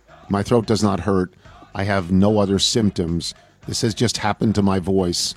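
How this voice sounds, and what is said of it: Raspy, hoarse voice. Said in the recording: “apologize for the quality of my voice. It is raspy. It is hoarse. ... Your voice sounds terrible.”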